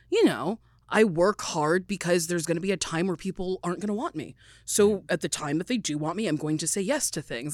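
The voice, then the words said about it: Imitates another person's voice. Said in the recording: “Did he say it in that voice like that? ... my John Cena impression.”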